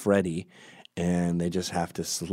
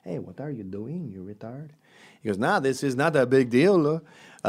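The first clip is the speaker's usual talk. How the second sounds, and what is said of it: Put-on French Canadian accent. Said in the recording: “No, wait, I'm doing a Mexican accent. Hold on, French Canadian.”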